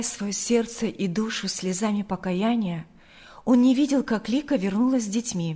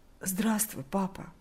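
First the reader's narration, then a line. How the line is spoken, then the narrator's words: Barely forced out. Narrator (Russian): еле выдавил из себя Игорь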